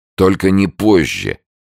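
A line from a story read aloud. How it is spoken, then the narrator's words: Drunk and stern. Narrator (Russian): пьяно строго сказал Никольский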